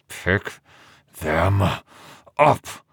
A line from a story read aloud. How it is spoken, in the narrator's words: Entreri said through gritted teeth